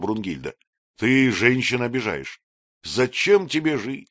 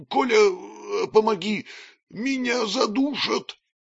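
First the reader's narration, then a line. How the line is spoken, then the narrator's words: Wheezing plea for help. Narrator (Russian): просипел, призывая на помощь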